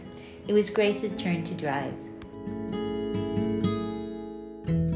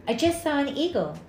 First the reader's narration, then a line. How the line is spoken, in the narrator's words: Grace said excitedly